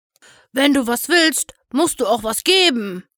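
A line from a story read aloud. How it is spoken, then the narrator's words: Grunting. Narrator (German): grunzte er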